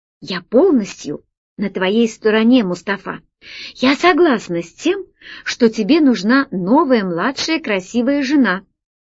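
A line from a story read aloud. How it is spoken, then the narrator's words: Whisper. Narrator (Russian): Алиса ... шепотом сказала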